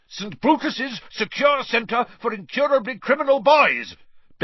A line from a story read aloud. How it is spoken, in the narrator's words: bellowed Uncle Vernon, a definite note of panic in Uncle Vernon's voice